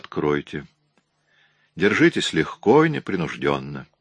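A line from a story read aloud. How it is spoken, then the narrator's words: Calm. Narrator (Russian): Мейски также спокойно сказал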